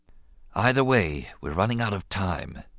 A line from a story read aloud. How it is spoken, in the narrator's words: advised quietly